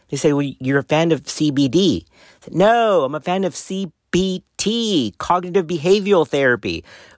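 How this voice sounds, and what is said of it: Strong non-native accent. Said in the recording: “this crazy accent gets me in trouble sometimes”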